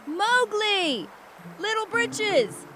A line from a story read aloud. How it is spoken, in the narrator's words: Bagheera and Baloo across the river shouting